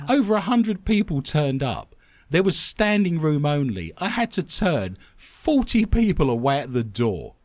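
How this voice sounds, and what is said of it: English accent. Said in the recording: “my English accent ... an Englishman reading stuff out”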